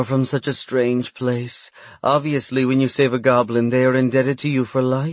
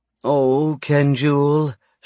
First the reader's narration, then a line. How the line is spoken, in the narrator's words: she sighed